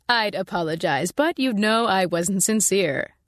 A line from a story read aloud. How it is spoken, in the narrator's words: Marsh said, and I thought he was close to laughing